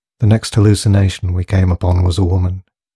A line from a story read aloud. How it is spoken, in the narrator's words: he would say in an unemotional tone